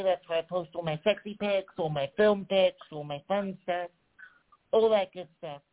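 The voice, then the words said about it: American-sounding accent. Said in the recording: “I know I probably sound American to English people now”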